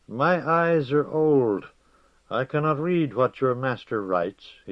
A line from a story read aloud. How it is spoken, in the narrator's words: he said in his quavering voice